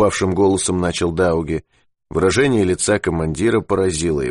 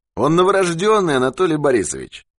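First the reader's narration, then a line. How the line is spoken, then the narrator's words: Cheerful. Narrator (Russian): весело сказал Юрковский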